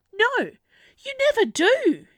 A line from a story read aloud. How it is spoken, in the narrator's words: she snapped back